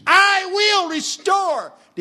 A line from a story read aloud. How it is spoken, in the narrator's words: God screams